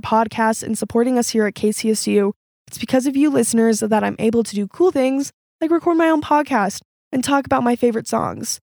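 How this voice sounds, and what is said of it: Congested voice from a cold. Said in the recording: “I had a cold this whole time, so my voice sounds a little bit weird.”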